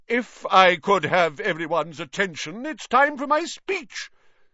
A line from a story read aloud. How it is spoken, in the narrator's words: said nearly headless Nick loudly